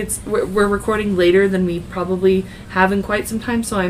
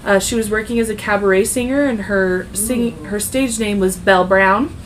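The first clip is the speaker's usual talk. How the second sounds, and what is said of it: Weird twangy accent. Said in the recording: “I'm, like, throwing this weird twangy accent”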